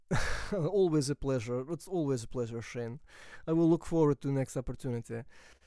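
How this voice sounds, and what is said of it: Vladimir Putin impression, Russian accent. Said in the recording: “doing the Vladimir Putin voice ... I spent a lot of time sort of like listening to these characters to try and get the accents as close as I can”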